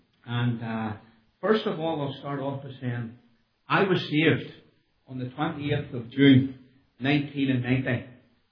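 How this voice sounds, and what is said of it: Belfast accent. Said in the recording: “I have a Belfast accent.”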